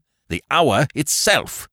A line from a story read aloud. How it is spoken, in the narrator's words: said Scrooge triumphantly